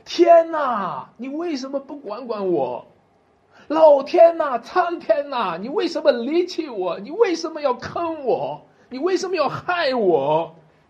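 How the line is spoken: Desperate crying out to heaven. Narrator (Chinese): 一个罪人的呼天不应，就像大卫一样呼喊

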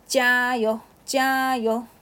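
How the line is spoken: Cheering shout. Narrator (Chinese): 小能则在一边喊

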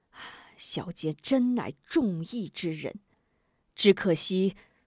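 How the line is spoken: Grateful sigh. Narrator (Chinese): 吴中感激万分，不由叹道

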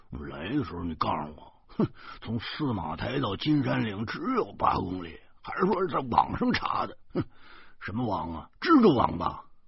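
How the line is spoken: Angry grumbling mutter. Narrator (Chinese): 周胖子……他气呼呼的嘟囔说

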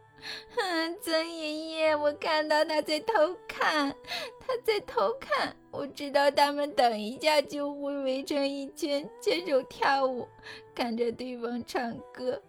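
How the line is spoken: Sad, crying. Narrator (Chinese): 阿纳斯塔夏又难过起来，边哭边说

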